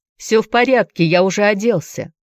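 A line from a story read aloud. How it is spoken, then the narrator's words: Called after her. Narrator (Russian): крикнул Энди ей вслед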